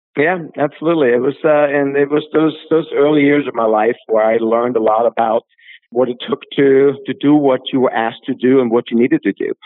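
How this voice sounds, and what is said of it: Austrian accent mixed with East Coast. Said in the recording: “your Austrian accent sounds a lot like East Coast accent to me... You got a wonderful mix of accents in your voice. I hear almost a little maybe Jersey in there, but a little bit of European, almost some Spanish... you've got a very unique accent”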